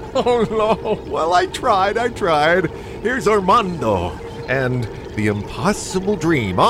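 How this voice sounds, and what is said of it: Usual voice. Nothing is said of it.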